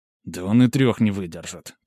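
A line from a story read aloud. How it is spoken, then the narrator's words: Contemptuous mutter. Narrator (Russian): презрительно буркнул Мирон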